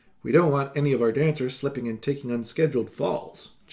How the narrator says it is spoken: John Marlowe said

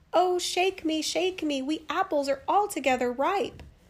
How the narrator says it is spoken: it cried out to her

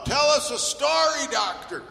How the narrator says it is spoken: Everyone scream right out loud

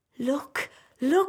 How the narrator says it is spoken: cried the tree

